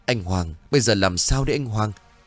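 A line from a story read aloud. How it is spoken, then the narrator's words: Frightened trembling woman. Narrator (Vietnamese): Nỗi sợ hãi xâm chiếm lấy cô run rẩy rồi nói với chồng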